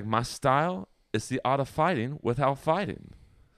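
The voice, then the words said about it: Imitates another person's voice. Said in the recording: “That was my Bruce Lee impression.”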